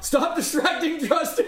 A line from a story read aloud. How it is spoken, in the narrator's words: Yell